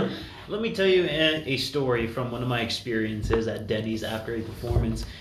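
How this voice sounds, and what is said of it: Usual voice. Nothing is said of it.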